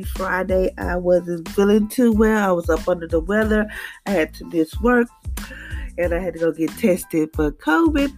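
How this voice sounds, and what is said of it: Low, under-the-weather voice. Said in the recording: “Please excuse my voice because it's kind of, you know, kind of low today.”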